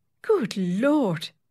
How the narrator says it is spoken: exclaimed the secretary

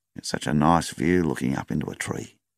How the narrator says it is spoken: he said softly

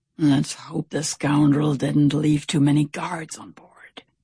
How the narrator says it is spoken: Stout Sam whispered

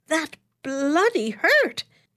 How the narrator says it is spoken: he exclaimed indignantly

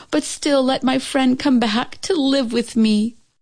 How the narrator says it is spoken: she cried to heaven

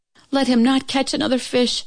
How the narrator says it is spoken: she cried to heaven

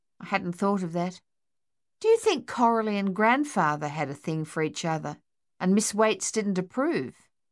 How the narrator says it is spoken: laughed

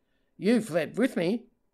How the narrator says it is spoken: Murray said

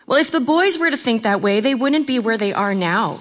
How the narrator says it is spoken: Vavra said

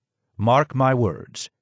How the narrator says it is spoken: he said solemnly

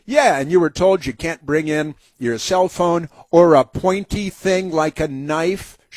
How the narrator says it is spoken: she said

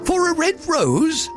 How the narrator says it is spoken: the flowers cried

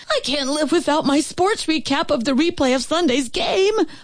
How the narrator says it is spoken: a hysterical man screamed as he collapsed with a serious case of the vapors

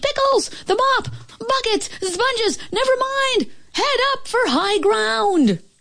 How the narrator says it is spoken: a panicky Pete screamed

